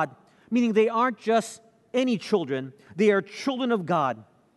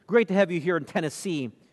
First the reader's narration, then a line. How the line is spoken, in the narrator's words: the stranger said